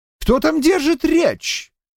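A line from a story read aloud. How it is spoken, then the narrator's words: Shouting. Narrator (Russian): выкрикнул чей-то голос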